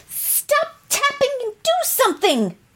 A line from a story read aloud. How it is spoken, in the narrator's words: shouted Jill